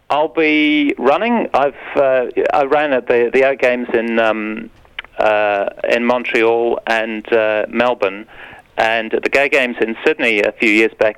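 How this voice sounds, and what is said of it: Slight British accent. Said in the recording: “You do actually have a bit of an accent. Are you from the UK?”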